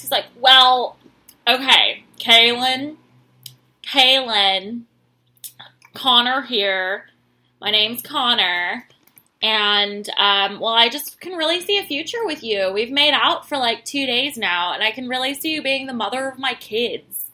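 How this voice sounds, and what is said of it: Imitates another person's voice. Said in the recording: “let me do my Connor voice.”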